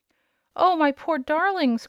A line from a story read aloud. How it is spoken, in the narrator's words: cried the queen, with a sob of anguish